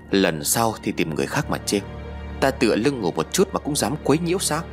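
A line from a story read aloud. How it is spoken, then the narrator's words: Harsh, gritted voice. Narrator (Vietnamese): gằn giọng nói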